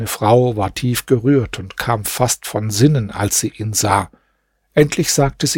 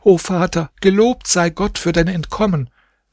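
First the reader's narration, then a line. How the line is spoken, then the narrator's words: Children shouting joyfully. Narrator (German): fröhlich seine Kinder schrien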